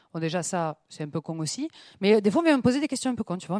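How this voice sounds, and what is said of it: Southern French accent. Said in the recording (French): “t'as l'accent du Sud ... moi, j'ai l'accent du Sud ... mon accent, il vient soit de Toulouse, soit de Marseille ... je reconnais l'accent qui vient de Béziers”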